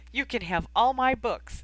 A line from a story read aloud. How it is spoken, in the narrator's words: exclaimed